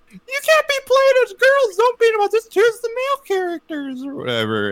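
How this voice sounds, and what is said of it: High squeaky Mickey Mouse-style voice. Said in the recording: “doing my mom's voice in a Mickey Mouse voice”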